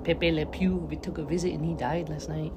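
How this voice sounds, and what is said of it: Failed French accent, sounds Mexican. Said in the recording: “I turned into a Mexican accent. Can't do a French accent ever.”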